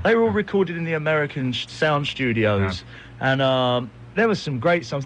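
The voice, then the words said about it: British accent. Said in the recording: “this guy with this British accent”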